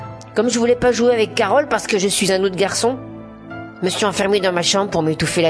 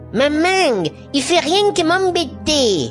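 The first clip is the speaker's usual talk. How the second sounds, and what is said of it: Exaggerated Marseille accent, drawn-out words. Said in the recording (French): “elle parle avec un accent de Marseille ... Elle dure longtemps avec son accent de Marseille à dire « m'embêter !» comme s'il y avait 10 M dans le mot”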